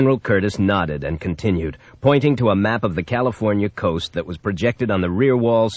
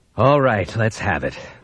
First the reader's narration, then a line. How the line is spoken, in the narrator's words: the president said wearily